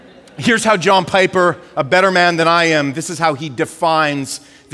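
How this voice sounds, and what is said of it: Usual voice. Nothing is said of it.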